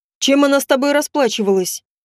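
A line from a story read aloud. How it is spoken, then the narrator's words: Menacing question. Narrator (Russian): грозно спросил Чернов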